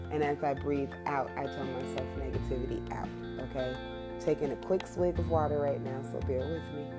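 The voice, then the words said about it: Hoarse voice. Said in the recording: “my voice is just recently coming back. It still feels hoarse”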